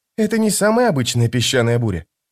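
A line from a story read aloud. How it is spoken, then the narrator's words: Quiet. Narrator (Russian): тихо проговорил Крокус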